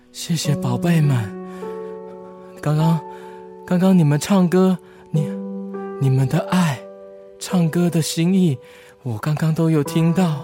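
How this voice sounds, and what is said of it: Very weak, feeble voice. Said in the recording (Chinese): “用很虚弱的声音说”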